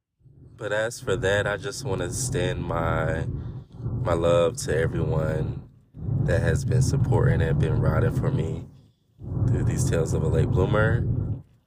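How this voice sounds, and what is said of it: Voice going, strained. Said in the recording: “My voice is going, y'all.”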